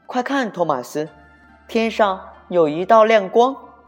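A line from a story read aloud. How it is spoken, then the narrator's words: Surprised cry. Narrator (Chinese): 裴西惊奇的叫了起来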